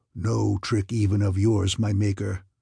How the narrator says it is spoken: came that mighty rumble again

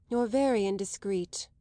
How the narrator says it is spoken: she said rather wearily

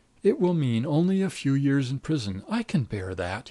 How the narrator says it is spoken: he cried

